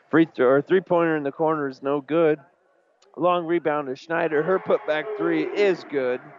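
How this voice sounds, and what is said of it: Strained, hoarse announcer voice. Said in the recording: “Think I'm losing my voice here, folks.”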